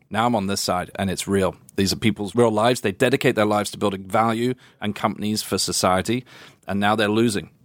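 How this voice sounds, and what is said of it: Speaks with a noticeable accent. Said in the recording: “God, sounds so much better with that accent.”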